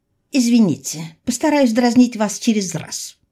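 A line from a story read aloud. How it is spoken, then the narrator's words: Grumble. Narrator (Russian): буркнула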